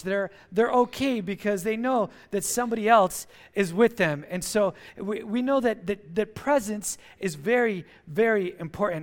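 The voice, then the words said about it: Speaks English with an accent. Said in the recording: “I hope you guys can understand my accent this morning.”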